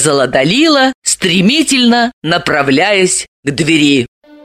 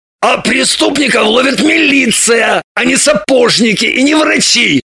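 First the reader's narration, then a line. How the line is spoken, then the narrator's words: Barking snap. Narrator (Russian): рявкнул Шульгин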